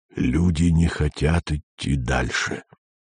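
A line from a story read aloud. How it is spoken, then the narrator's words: Low undertone. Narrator (Russian): произнес он вполголоса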